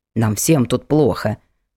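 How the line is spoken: Grumbling. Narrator (Russian): проворчала дама

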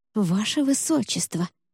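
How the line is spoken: Warning whisper. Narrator (Russian): предупреждающе прошептала Джема

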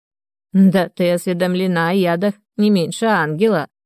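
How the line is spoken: Old woman's snide snort. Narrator (Russian): ехидно хмыкнула старушка

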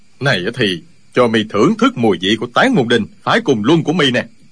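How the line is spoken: Furious shout. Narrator (Vietnamese): Y cả giận, quát lên

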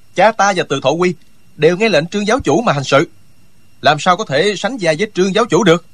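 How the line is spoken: Loud, agitated. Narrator (Vietnamese): Hàn Lâm Nhi mặt đỏ gay, nổi cả gân xanh trên trán, lớn tiếng nói

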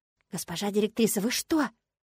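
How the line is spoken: Child whispering. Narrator (Russian): зашептал малыш

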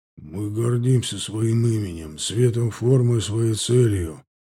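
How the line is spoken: Grim, bearded man. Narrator (Russian): сказал мрачно бородатый Нафтали

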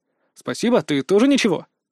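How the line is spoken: Wry snort. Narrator (Russian): хмыкнул я ему вслед

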